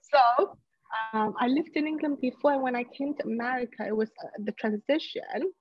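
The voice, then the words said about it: British accent. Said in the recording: “I lived in England before, if you haven't guessed my accent, the British Queen accent.”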